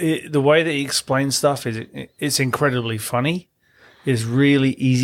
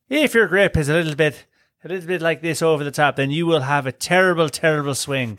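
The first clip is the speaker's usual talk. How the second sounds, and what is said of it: Put-on imitated accent. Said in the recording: “I can't do the accent. ... We're looking at Damien to see if that accent was all right. ... I think we enjoyed that accent. That was good. ... The accent's been good.”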